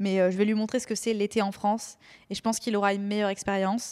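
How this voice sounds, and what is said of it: Usual voice. Nothing is said of it.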